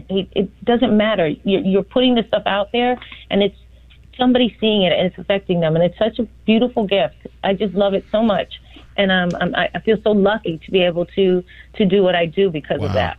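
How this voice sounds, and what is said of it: Excited, enthusiastic speech. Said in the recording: “You sound so excited.”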